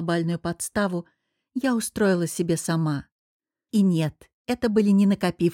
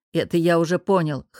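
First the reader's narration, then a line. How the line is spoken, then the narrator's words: Grunt, then low rumble. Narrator (Russian): хмыкнул Артем Станиславович и, нахмурившись, пророкотал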